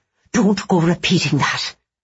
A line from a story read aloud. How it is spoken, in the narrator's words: Nora hissed